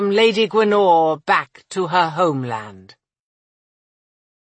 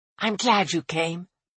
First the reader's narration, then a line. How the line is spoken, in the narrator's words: Annika whispered